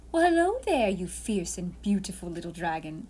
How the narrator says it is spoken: exclaimed Pirate Lydia

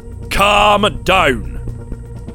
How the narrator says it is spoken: he boomed

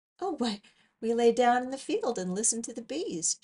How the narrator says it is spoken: she chuckled

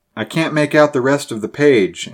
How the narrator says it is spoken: answered Griswell

